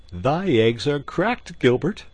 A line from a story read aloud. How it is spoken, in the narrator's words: quoth Robin, laughing